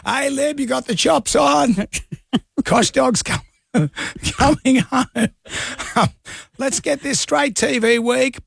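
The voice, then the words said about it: Impression of the K-Dog. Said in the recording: “As the K-Dog says here. ... do the voice.”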